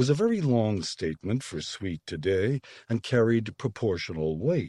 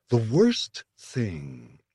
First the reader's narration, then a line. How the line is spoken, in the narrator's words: said in her slow, comfortable voice